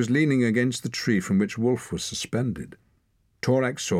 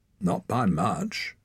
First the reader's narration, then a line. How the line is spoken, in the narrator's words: Wren said dryly